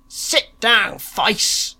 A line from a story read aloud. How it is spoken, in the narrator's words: roared the pleasure seekers